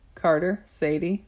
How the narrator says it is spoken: she said

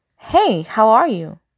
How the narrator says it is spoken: Zora asks

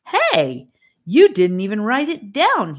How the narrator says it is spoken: he exclaimed

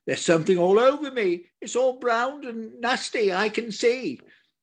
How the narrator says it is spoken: she called out and did shout

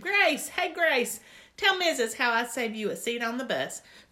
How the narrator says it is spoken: I shouted across the room

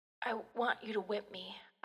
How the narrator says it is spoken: I rasped

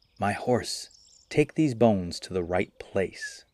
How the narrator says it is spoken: she whispered in his ear

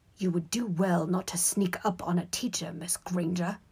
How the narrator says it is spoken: he hissed evilly

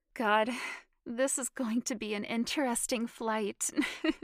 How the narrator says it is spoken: she said, laughing

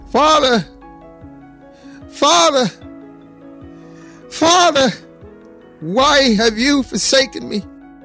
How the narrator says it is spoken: cries out

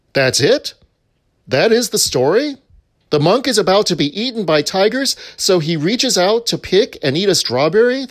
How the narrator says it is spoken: the student exclaimed

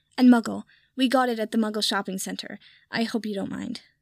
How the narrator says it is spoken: Pansy said quickly

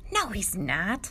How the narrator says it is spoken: scoffed the other Daniel, Daniel Nussbaum

